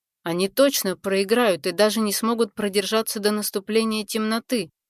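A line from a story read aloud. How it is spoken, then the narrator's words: Plain. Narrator (Russian): сказал Ирон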